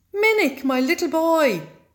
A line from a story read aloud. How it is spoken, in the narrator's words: cried his father